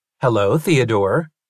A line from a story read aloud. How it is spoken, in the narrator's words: he said